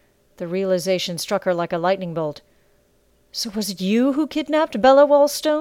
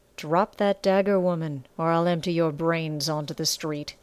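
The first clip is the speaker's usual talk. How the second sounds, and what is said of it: Hard, deepened menacing voice. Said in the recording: “His voice hardened and deepened.”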